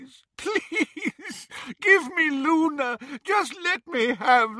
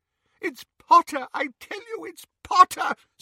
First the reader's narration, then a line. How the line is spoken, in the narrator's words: sobbed Xenophilius